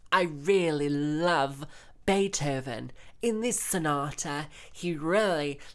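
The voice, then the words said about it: Put-on transatlantic opera singer accent. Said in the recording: “develop that strange transatlantic accent that all opera singers from America have”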